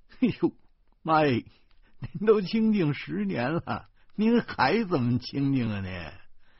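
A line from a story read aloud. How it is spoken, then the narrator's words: Mischievous grin. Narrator (Chinese): 我坏笑着说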